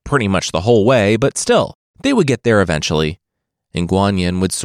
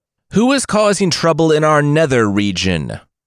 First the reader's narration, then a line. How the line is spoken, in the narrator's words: Yama cried in the darkness of the underworld